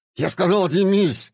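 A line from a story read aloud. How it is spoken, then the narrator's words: Yelling. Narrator (Russian): заорал Гена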